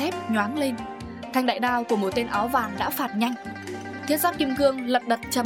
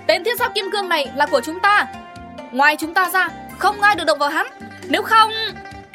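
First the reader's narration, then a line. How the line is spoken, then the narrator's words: Woman shouting. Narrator (Vietnamese): mụ ta thét lớn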